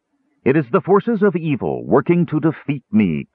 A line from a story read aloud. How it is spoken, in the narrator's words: cried the king priest, his musical voice sending a thrill of courage through the souls of those listening